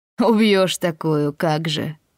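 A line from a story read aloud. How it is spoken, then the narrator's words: Laughing. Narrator (Russian): рассмеялся Дэвис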